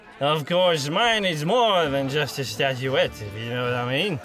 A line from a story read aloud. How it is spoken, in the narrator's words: he slurred